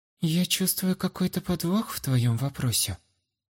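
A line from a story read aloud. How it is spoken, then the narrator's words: Quiet. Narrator (Russian): тихо ответила блондинка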